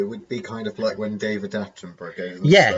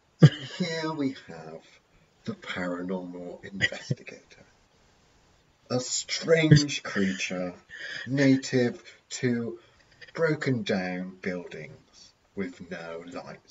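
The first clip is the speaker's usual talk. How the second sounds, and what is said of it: Imitates a nature documentary narrator. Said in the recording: “do my best David Attenborough impression”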